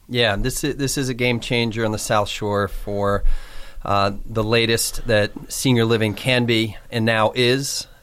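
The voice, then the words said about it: Boston accent. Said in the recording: “I'm the guy with the Boston accent”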